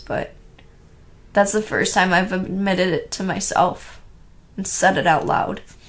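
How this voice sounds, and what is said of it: Shaky, tearful voice. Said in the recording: “I am tearing up right now, and you guys can probably tell by how shaky my voice is”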